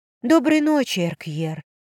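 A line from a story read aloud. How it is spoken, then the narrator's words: Husky strained exhale. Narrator (Russian): Сипло выдохнула я и натянуто улыбнулась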